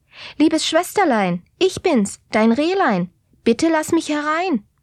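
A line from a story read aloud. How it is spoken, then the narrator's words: Calling out. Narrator (German): rief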